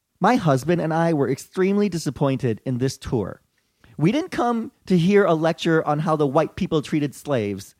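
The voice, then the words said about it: Stereotyped white girl voice. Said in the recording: “in my white girl voice”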